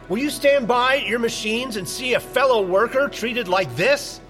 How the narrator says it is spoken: starts shouting

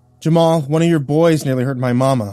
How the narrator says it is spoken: shouted angrily

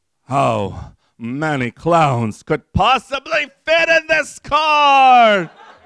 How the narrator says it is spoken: It screamed

